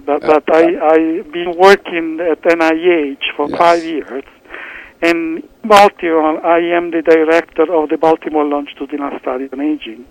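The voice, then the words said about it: Italian accent. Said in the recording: “From my accent, that I'm Italian”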